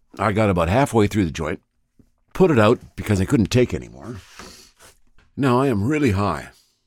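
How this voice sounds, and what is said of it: Slightly strained, stressed voice. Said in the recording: “you can probably hear in my voice that it's a little stressed”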